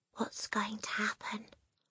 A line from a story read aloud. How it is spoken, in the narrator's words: Lavender whispered